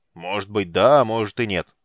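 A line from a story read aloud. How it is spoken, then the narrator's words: Stern. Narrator (Russian): строго произнес Арман Харрас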